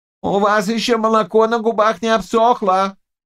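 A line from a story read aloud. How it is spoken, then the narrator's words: Shouting commander. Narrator (Russian): закричал воевода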